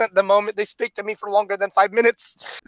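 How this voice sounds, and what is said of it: Imitates another person's accent. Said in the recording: “that's a pretty good accent.”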